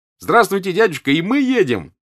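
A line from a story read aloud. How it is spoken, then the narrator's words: Shouting. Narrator (Russian): прокричал Петя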